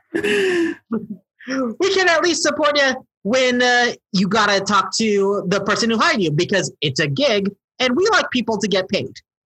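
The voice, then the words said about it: Put-on accent that keeps shifting. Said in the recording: “my accent is going... is changing all over the place.”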